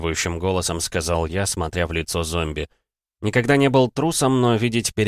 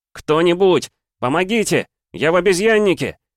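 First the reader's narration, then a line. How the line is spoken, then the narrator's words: Shouting for help. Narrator (Russian): кричал я, надеясь, что меня услышат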